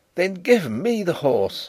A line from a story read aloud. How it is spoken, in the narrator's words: I cried, staggering to my feet